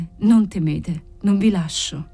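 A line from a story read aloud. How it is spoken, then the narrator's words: Murmuring, fighting emotion. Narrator (Italian): mormorò lui, cercando di vincere la sua emozione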